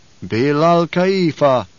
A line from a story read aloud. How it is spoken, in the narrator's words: intoned the troop